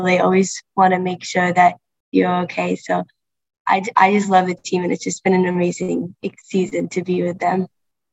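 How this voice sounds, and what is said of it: New England (Maine) accent. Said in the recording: “as we can tell from your accent, you're from New England. You're a proud Mainer.”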